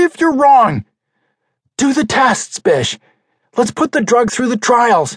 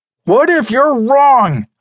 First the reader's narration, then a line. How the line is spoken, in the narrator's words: I shouted